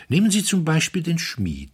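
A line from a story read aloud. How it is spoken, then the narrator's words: Calm, continuing. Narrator (German): fuhr Pater Brown ruhig fort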